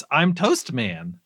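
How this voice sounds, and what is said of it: Excited funny character voice. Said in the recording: “His voice is very funny ... He's like excited.”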